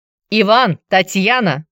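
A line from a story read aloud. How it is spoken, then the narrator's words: Loud shout. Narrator (Russian): Золотов громко выкрикнул имена детей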